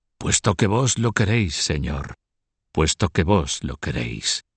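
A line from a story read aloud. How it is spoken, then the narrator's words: Whispered. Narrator (Spanish): susurró Diez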